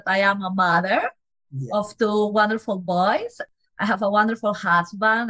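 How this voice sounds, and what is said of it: Peruvian Spanish accent. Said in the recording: “you have an accent. ... I am from Peru. I am a Latin girl.”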